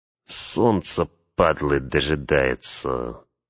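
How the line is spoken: Through gritted teeth. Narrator (Russian): процедил один из охранников

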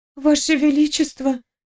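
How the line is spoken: Trembling voice. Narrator (Russian): сказала я дрожащим голосом

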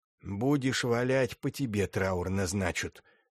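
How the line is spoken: Angry hiss. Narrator (Russian): злобно прошипел Савелий

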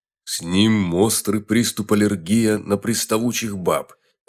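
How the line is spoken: Angry deep bass. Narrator (Russian): разгневанно пробасил медведь

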